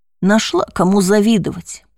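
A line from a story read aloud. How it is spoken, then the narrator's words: Grumble. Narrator (Russian): проворчала другая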